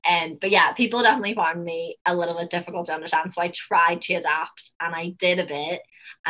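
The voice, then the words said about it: Northern Irish accent, slight American tinge. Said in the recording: “someone telling me I have a bit of American in my accent ... the Northern Ireland, the Irish accent”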